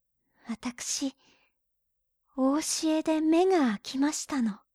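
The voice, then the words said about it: Whispering softly. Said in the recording (Japanese): “ささやくように言った”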